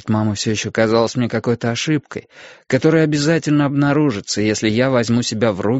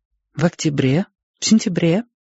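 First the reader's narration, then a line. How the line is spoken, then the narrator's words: Gentle clarifying question. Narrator (Russian): мягко уточнила она, когда я надолго замолчал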